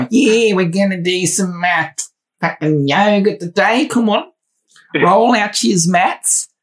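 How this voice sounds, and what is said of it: Australian accent with Cockney tinge. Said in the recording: “You can really hear that Cockney coming through the Aussie accent there.”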